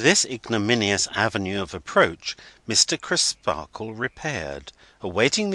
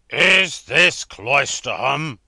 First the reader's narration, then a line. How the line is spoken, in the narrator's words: demanded the passenger in a tremendous voice